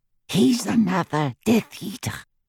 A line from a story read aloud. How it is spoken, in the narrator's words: breathed Griphook